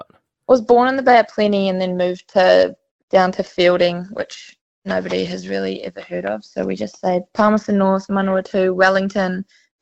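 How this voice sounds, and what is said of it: New Zealand accent. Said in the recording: “You obviously hail from NZ, judging from your accent.”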